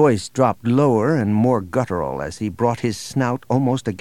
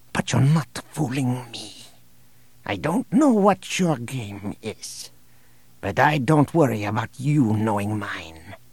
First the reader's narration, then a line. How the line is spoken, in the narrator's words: he whispered